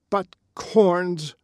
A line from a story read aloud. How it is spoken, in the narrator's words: exclaimed Mr